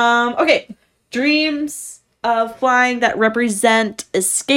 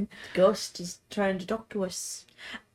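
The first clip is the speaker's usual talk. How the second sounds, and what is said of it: Put-on accent, poorly done. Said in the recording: “Love your accent. ... You like my accent. ... I'm terrible at this.”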